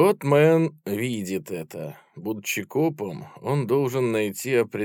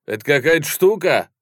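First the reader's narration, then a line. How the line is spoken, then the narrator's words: Loud question. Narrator (Russian): громко спросил Мэн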